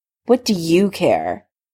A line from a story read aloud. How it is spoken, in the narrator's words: Severus sneered, looking annoyed at the presumption